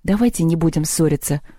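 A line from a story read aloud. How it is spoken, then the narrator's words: Trembling voice. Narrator (Russian): дрожащим голосом сказала Лёля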